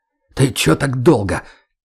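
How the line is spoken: Breathless, indignant, hurt. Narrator (Russian): Тяжело дыша и даже возмущенно и обиженно выдал Леха

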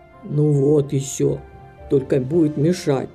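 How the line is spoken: Angry grumble. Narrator (Russian): сердито буркнул мистер Купер

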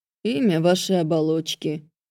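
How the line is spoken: Slightly bored. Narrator (Russian): сказал второй чуть более скучающим тоном

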